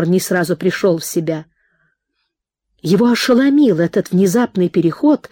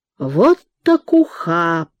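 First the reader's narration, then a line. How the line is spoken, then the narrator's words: Whistling, drawn-out drawl. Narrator (Russian): присвистнув, протянул он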